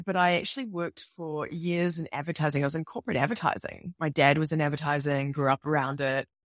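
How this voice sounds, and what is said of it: New Zealand accent. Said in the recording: “I'm from New Zealand, obviously. You can tell by my accent. It's a little different.”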